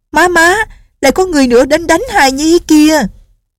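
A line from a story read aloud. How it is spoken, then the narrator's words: Little girl shouting. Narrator (Vietnamese): Tiểu cô nương la lên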